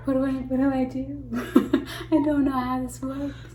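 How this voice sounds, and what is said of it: Old English lady voice. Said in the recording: “You don't have to talk like that. ... talking like an old English lady?”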